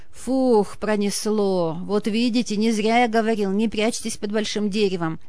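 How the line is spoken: Shaky, strange voice. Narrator (Russian): Сотрясаясь от нервной дрожи, не своим голосом сказал друзьям Гога

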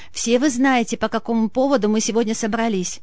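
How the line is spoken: Tragic tone. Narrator (Russian): трагическим тоном начала свою речь Ксения

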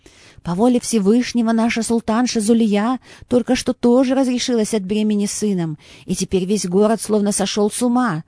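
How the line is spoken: Bitter exclamation. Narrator (Russian): с горечью воскликнул визирь

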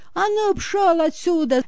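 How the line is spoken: Angry yelling. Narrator (Russian): завопила на пса Серафима Игнатьевна

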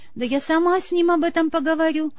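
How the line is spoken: Agitated exclamation. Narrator (Russian): воскликнула взволнованная женщина

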